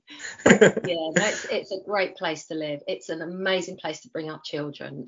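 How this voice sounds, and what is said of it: Cockney London accent. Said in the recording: “I still feel like a Londoner because I'm a Cockney and I'm always going to be a Cockney”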